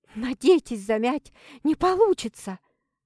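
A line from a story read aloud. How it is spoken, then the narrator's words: Hissing, near hysteria. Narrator (Russian): За шипением слышалась надвигающаяся истерика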